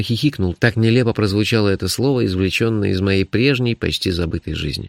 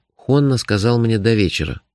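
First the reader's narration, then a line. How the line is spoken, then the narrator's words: Sigh. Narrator (Russian): вздохнул я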